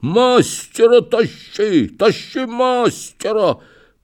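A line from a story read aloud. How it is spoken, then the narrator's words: Hoarse wheezing. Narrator (Russian): Барин, знай, хрипит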